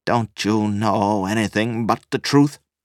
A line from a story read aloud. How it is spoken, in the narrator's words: He snarled in despair